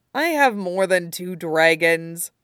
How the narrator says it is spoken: John says dryly

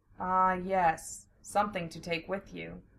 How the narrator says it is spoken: Joe murmured

